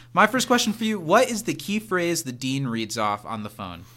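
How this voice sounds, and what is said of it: Usual voice. Nothing is said of it.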